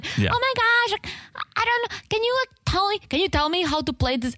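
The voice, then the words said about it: Childish, helpless little-girl voice. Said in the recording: “I forgot Natalie's accent. ... she has this like childish voice ... This helpless little girl.”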